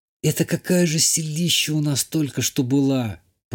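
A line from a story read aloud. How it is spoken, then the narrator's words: Whispered. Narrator (Russian): прошептала Ишта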